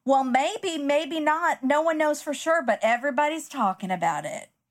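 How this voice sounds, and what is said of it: Imitating Kay's accent. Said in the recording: “Kay says in her accent”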